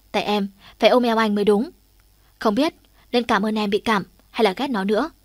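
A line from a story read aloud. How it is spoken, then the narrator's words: Annoyed voice. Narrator (Vietnamese): Hạ Trường Ninh nói với giọng khó chịu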